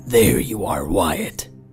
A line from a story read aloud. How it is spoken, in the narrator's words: the Wendigo grunted